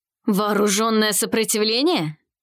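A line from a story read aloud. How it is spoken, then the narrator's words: Growled, panther creature. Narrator (Russian): прорычал пантероид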